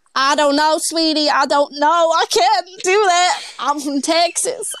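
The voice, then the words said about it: Put-on Texan American accent. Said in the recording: “I could do this whole podcast in an American accent ... Can you do Texan?”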